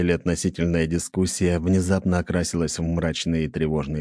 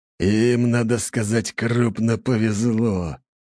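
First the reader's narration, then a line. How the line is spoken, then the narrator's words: Low muffled growl. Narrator (Russian): глухо прорычал Лажон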